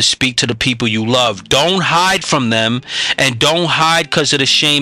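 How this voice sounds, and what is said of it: Usual voice. Nothing is said of it.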